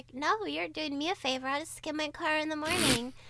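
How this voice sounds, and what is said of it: Imitates another person's voice. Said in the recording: “a really good impression of Crystal”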